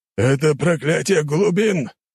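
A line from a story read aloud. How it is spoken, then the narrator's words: Surprised growl. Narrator (Russian): удивленно прорычал пират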